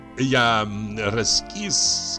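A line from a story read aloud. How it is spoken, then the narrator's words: Plain. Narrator (Russian): сказал он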